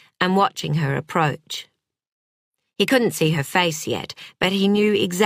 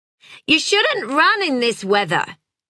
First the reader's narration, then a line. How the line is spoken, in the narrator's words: shouted